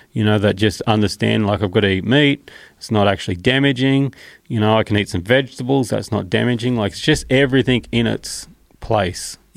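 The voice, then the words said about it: Australian accent. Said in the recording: “Why does cunt sound so much better with an Australian accent? ... it's so normal in Australia.”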